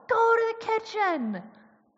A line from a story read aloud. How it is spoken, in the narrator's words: yelled